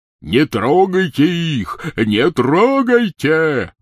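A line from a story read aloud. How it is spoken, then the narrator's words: Shouting. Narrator (Russian): кричал он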